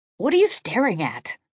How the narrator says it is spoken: His voice was loud as a whip crack

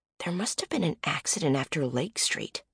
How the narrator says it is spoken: murmur

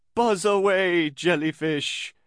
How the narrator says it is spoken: The yellow box-shaped character continued in his best dramatic voice

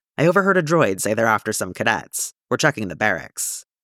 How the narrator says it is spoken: he snorts, and says

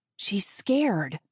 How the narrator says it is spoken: I whisper hiss

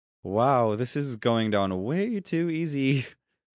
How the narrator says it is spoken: she said with a delicate giggle

